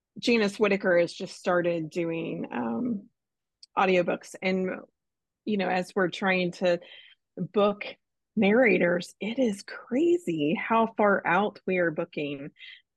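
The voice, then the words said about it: Froggy, hoarse voice. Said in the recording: “Now I've got a frog in my throat.”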